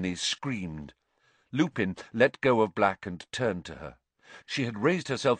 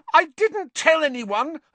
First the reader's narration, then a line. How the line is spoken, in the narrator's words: Hermione shrieked